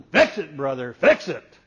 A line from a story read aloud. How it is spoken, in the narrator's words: the guy started yelling